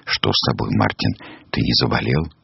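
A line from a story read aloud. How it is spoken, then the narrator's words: Frightened whisper. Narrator (Russian): Нильс даже испугался, он наклонился к самому уху гуся и зашептал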